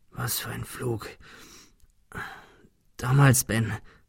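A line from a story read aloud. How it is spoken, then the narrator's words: Stammering. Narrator (German): stammelte er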